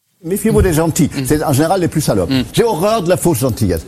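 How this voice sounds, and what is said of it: Recognizable German accent in French. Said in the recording (French): “accent très reconnaissable ... Accent allemand”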